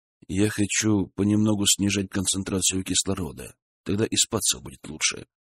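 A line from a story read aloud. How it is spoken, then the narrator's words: Whisper in ear. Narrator (Russian): шепнул на ушко жене Валера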